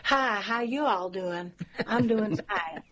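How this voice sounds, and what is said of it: Poor imitation of American accent. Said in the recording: “that's my very poor American accent”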